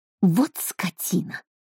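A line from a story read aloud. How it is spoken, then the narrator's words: Hissed. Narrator (Russian): прошипела Брит-Мари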